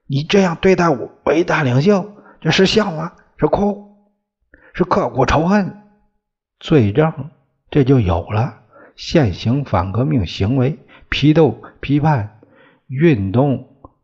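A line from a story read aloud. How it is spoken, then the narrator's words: Accusing shout. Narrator (Chinese): 专案组的人朝他喊起来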